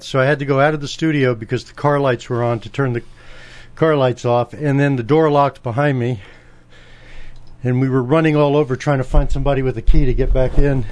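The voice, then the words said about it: Breathless, out of breath speech. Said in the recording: “I'm a little out of breath ... that's why I'm out of breath ... while you're catching your breath”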